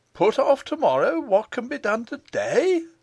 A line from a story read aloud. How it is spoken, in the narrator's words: cried Michael, with indignation